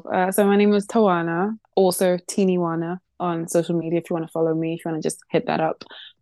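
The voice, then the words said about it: British accent. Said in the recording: “I live in the UK, as you can tell by this dead accent.”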